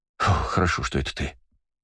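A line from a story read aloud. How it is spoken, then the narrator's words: Relieved exhale. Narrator (Russian): с облегчением выдохнул он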